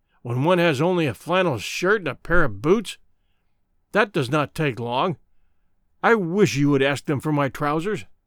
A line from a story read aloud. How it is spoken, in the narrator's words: growled Good